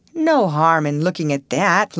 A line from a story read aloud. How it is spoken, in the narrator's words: laughed Russ